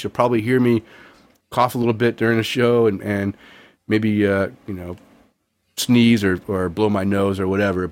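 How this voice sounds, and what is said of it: Congested, sick-sounding voice. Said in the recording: “I have been really, really sick with a really bad head and chest cold. You can probably hear it in my voice.”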